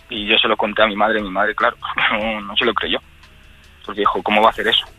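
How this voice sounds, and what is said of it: Trembling, emotional voice. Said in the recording (Spanish): “se me está poniendo la voz temblorosa otra vez”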